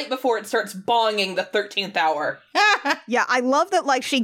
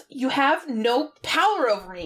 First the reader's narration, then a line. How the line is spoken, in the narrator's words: Sarah snaps